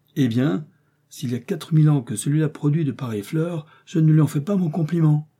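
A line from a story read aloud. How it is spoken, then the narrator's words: Exclaiming. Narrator (French): Joey de s'écrier à sa vue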